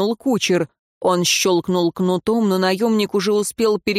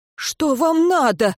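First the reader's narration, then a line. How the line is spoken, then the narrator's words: Frightened cry. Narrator (Russian): испуганно выкрикнул смерть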